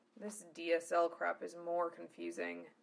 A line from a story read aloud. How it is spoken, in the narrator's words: he muttered